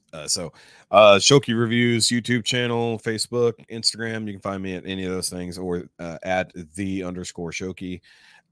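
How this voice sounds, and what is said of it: Slightly hoarse voice. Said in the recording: “I'm getting a little hoarse.”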